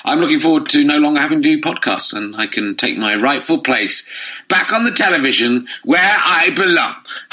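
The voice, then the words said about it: Slightly croaky voice. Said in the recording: “my voice is slightly croaky, because all this work is killing me”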